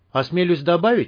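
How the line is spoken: Cheerful. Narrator (Russian): весело подхватил Ломакин

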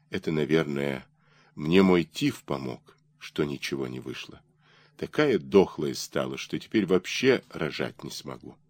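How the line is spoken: Tired, bitter tearful whisper. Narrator (Russian): устала и горько сквозь слезы шептала ему

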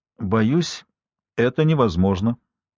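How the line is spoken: Calm. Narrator (Russian): спокойно вступил в разговор мистер Дуглас Хьюз

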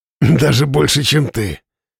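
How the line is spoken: Snorting. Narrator (Russian): хмыкнул Слава

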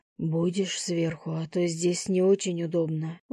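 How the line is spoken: Breathless exhale. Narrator (Russian): выдохнул Лев

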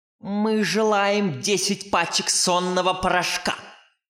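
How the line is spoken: Barking woman. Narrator (Russian): рявкнула тетушка Манефа

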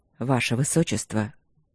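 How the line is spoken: Hoarse, strained voice. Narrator (Russian): голос сиплый, затрудненный, словно он выталкивал из себя слова

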